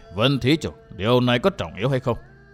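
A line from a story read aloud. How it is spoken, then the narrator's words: Old monk, heavy sigh, slow. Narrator (Vietnamese): Thở dài một tiếng trầm trọng, vị lão tăng cất giọng trì hoãn nói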